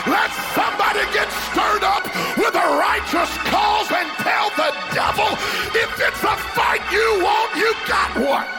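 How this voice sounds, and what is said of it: Loud excited screaming preaching. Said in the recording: “Why are you screaming? ... I'm a little bit excited ... he's just really loud and really excited”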